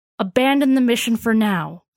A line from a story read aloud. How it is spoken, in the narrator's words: Commander Wilker barked